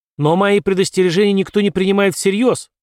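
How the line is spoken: Shouted. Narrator (Russian): закричал Джок

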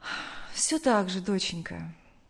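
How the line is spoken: Sad answer. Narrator (Russian): грустно ответила мать

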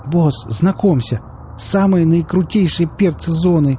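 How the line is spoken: Admiring exclamation. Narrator (Russian): восхищенно воскликнул Нарк

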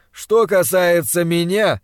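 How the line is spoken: Resonant voice. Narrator (Russian): сказал своим звучным голосом Пельт

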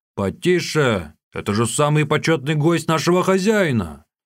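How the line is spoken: Shouting. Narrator (Russian): крикнул

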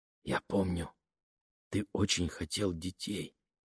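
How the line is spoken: Quiet. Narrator (Russian): тихо проговорила Лене

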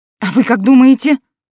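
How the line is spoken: Irritated grumble. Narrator (Russian): Буркнула раздраженно

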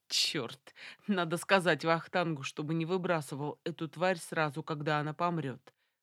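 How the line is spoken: Speaking through laughter. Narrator (Russian): проговорил Виталик сквозь смех

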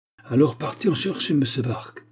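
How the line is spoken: Curt, sharp tone. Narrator (French): dit Agar d'un ton sec

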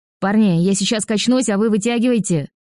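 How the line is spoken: Shout. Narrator (Russian): крикнула

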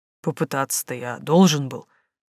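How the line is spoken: Grumbling. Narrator (Russian): буркнул Симон

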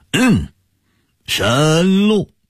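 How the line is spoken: Amazed exclamation. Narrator (Chinese): 他惊叹道

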